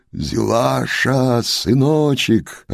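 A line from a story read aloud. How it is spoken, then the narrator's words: Joyful hiss. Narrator (Russian): радостно зашипела Шалмабора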